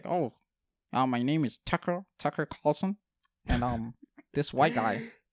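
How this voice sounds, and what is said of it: Put-on white American voice. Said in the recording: “put on my white person voice”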